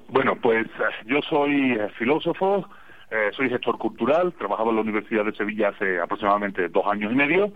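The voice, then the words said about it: Marked Sevillian Andalusian Spanish accent. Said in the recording (Spanish): “El andaluz y el mexicano son dos acentos muy bonitos, muy hermosos, muy marcados ... aquí voy luciendo el acento de la casa, el acento sevillano.”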